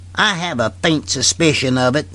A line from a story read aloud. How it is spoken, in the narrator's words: sneered Haines